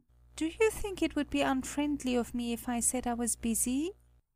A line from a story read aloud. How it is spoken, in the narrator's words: inquired in a shy and timid voice